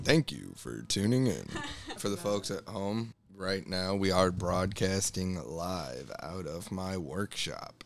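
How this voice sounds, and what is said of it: Radio announcer voice. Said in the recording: “you had a radio voice,”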